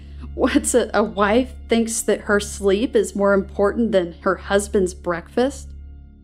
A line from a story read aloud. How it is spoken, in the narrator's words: She laughed, her coarse, ugly cackle